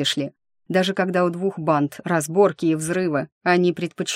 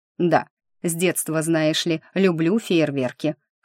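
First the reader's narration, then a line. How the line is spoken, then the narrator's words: Contented snort. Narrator (Russian): хмыкнул Харт, которому стало, видимо, совсем хорошо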